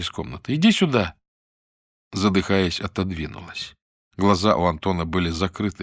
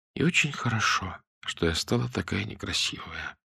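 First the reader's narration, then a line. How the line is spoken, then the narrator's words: Strange empty voice. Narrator (Russian): странным каким-то пустым голосом произнесла Лидка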